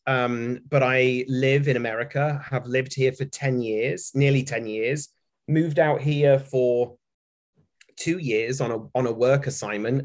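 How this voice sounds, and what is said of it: British accent. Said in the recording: “you can probably hear from my accent that I'm a Brit”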